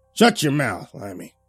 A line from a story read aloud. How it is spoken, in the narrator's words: the old man snarled